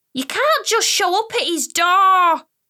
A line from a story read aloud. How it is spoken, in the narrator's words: Amara screamed at me down the phone